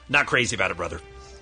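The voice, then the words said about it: Imitates another person's voice. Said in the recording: “Hulkster, how do you feel about that situation? ... that was Josh Gad-esque in his improvisational ... that impression ... a Hulk Hogan impression”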